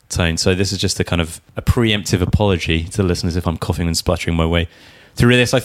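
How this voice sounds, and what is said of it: Voice sounds like a cold. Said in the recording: “As you may be able to hear in my voice, I've got a bit of a cold.”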